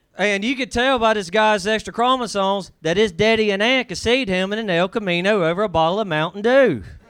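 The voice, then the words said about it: Speaks with a noticeable accent. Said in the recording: “You can almost say anything with your accent, and it's pretty much funny.”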